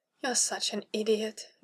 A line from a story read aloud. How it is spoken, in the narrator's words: Dahlia murmured, and the softness in her voice